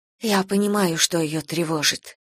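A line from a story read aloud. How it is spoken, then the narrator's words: Whisper. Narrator (Russian): шепнула священнику Эстер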